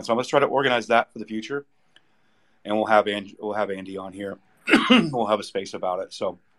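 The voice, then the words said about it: Hoarse, failing voice. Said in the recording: “losing my voice 1,000% right now, guys. It's completely going.”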